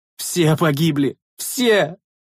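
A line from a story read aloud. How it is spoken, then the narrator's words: Choked out with terrible sob. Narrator (Russian): Со страшным всхлипом выдавил Тибрий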